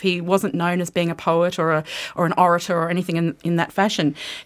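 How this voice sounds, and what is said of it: Australian accent. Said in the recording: “you're Australian. ... Can you tell from the accent?”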